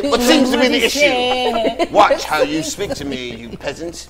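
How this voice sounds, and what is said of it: Put-on rich white man accent. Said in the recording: “Rich white man style ... my accent, my accent gonna change when I put it on.”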